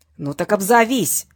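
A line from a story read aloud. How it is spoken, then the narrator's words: Barking. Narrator (Russian): рявкнула трубка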